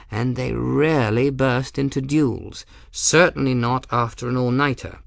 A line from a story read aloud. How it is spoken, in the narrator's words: Addy replied in a mild tone